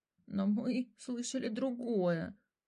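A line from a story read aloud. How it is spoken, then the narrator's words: Trembling voice. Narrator (Russian): дрожащим голосом сказал Мотя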